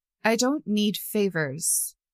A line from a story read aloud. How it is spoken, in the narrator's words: Kellen said slowly